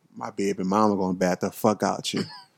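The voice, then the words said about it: Put-on New Orleans accent. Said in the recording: “New Orleans accent”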